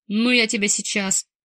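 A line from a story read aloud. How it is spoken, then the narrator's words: Barking shout. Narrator (Russian): рявкнул Маркусик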